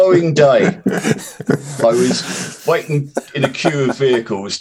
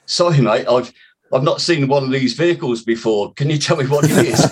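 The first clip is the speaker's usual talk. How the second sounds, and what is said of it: Put-on South African accent. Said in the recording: “in a South African accent,”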